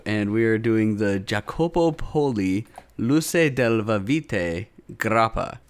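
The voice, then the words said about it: Poor put-on Italian accent. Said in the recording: “my shitty Italian accent”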